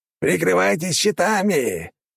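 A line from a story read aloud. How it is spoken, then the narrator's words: Commander roaring. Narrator (Russian): взревел командир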